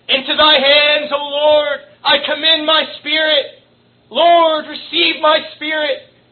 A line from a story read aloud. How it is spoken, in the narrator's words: Ridley saw the fire flaming up towards him, he cried with an amazing loud voice